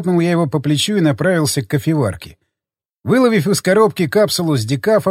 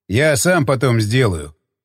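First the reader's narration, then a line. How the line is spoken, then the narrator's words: Snorting. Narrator (Russian): хмыкнул он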